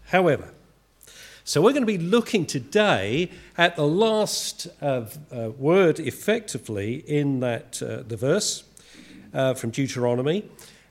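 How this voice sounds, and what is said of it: Estuary English accent. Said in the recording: “I'm of an Estuarine accent.”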